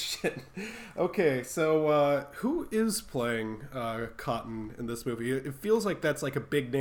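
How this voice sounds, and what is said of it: Usual voice. Nothing is said of it.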